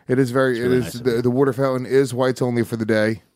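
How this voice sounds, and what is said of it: Mocking put-on Philly accent. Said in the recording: “I just mocked him right to his fucking face ... that was a Philly accent.”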